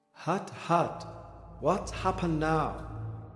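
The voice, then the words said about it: Old woman with Dutch accent. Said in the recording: “the old Dutch grandmother's accent sounded from the walls.”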